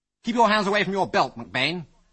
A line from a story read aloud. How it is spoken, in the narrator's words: snapped Algy